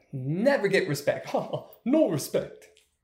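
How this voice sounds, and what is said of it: Bad Rodney Dangerfield impression. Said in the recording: “my crappy Rodney Dangerfield impression,... if you can call it an impression”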